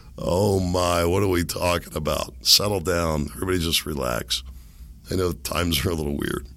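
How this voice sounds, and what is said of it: Strained, damaged raspy voice. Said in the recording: “I feel like I sound like Ron White here... I can't take this with my voice anymore. I got a bad feeling I'm not getting my voice back... if this is the way my voice is going to be”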